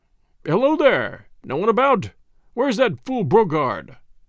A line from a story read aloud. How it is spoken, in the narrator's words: he called in a loud, cheerful voice